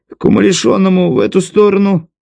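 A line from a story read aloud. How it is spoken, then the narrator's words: Farmer's puzzled snort. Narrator (Russian): Фермер недоуменно хмыкнул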